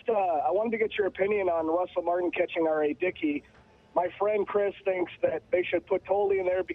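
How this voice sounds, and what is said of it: Hoarse, worn-out voice. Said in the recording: “You'll have to excuse my voice. ... I think I did a little bit too much yelling during the game.”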